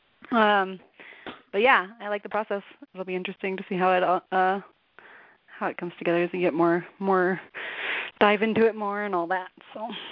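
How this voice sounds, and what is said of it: Hoarse, fading voice. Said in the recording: “I keep losing my voice.”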